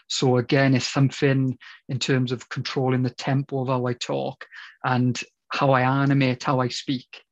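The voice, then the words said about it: Strong Welsh accent, fast speech. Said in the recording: “naturally, I talk very fast ... I have a very strong Welsh accent.”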